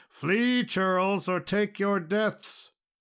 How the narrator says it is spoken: he cried out in a terrible voice

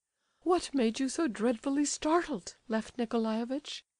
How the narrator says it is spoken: she added, a little timidly

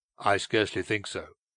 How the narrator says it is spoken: he replied coldly

